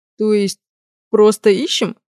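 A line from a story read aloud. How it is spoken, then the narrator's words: Glum. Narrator (Russian): уныло произнес огневик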